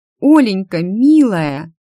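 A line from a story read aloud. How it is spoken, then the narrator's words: Exclaimed. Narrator (Russian): воскликнула кузина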